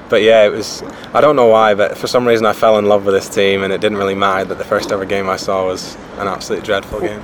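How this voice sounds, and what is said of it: Irish accent. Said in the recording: “judging by your accent, I don't know how many Hoffenheim fans there might be in Ireland ... if you haven't guessed from my accent, I'm from Ireland”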